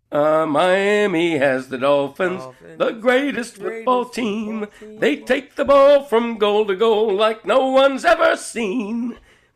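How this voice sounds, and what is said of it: Hoarse, froggy singing voice. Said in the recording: “My voice is a little off this morning. I'm a little horsey, froggy.”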